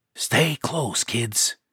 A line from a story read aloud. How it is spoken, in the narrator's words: Pan whispered